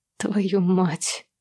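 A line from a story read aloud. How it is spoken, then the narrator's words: Mumbling. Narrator (Russian): бормочу я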